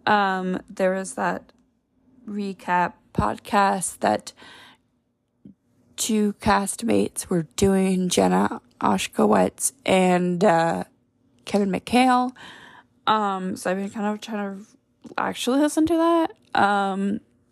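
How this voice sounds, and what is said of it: Scratchy voice. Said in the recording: “my voice is getting very scratchy right now”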